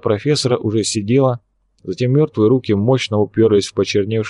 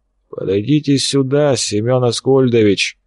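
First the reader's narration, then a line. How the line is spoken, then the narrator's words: Hoarse, low. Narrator (Russian): Хриплый низкий голос ничем не напоминал профессорский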